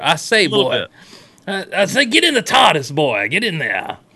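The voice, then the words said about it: Smooth Foghorn Leghorn Southern drawl. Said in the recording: “kind of Foghorn Leghorn, only smoother.”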